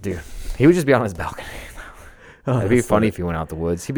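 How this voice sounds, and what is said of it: Usual voice. Nothing is said of it.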